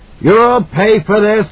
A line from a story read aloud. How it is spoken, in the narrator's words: he howled